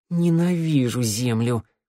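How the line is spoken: Hoarse rasp. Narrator (Russian): прохрипела она

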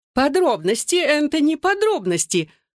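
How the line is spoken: Exclaiming. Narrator (Russian): воскликнула тетя Эстер

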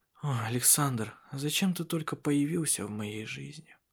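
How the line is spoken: Helpless whisper to herself. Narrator (Russian): В бессилии шептала самой себе

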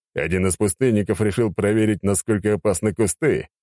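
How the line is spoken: Loud, reassuring. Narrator (Russian): громко сказал, чтобы успокоить людей

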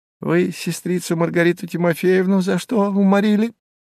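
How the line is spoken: Pestering with giggles. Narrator (Russian): приставал, хихикая

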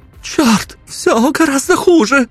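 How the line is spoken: Singer's cry. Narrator (Russian): вскрикнула певичка

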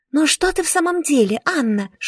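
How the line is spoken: Whispering. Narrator (Russian): шепотом говорила мне сестра

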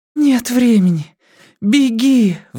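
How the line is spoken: Weak desperate pleading. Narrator (Russian): взмолилась Бакстер, тратя последние остатки жизненных сил

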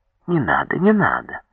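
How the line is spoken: Cheerful, affectionate. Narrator (Russian): весело, ласково закивал Обольников

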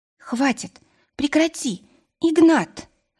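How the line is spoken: Pleading. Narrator (Russian): взмолилась

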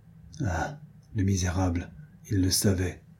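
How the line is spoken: Murmuring. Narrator (French): murmura Diane

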